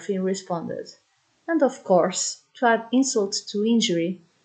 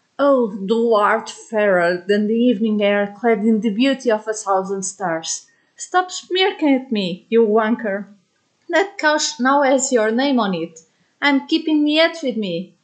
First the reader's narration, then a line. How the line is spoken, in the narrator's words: the good professor growled